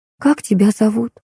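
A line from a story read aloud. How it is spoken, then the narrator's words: Quiet question. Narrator (Russian): тихо поинтересовалась Джулия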